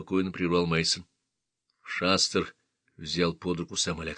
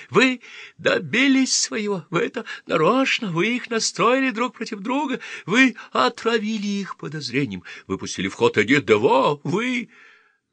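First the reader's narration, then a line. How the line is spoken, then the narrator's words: Terrified shriek. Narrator (Russian): Шастер в ужасе … завизжал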